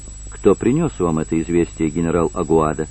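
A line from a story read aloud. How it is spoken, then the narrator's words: Quiet question. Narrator (Russian): спросил тихо Конробер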